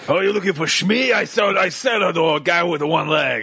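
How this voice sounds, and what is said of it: Toydarian accent, Watto impression. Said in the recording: “That's a Toydarian, but ... does a very good Toydarian ... I do a funny accent that became a character in a multi-million dollar grossing film”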